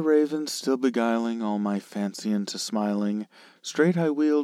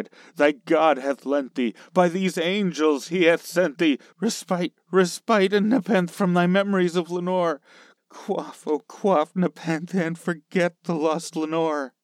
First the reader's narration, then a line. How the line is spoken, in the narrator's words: I cried